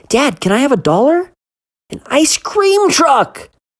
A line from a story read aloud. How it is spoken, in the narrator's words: Billy shouted